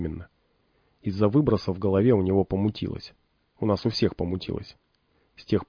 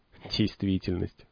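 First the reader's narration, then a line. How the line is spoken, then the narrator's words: Snort. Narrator (Russian): хмыкнул полуночник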